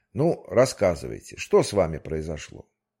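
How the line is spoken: Good-natured tone. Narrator (Russian): И уже совсем другим добродушным тоном спросил

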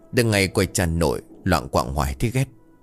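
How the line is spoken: Curt whisper. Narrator (Vietnamese): Hưng thì thầm cộc lốc

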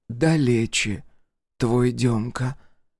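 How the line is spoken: Sad whisper. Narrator (Russian): Печально прошептала Акулина, чтоб мелкий не услышал

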